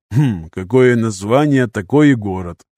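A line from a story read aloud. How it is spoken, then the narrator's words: Wry grunt. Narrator (Russian): хмыкнул Поль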